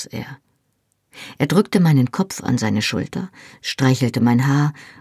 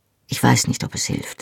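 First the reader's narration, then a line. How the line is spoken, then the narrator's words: Quiet. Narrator (German): sagte er leise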